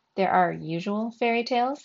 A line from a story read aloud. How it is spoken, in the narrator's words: asks Sarah